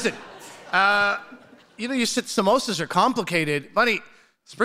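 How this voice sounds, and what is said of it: Usual voice. Nothing is said of it.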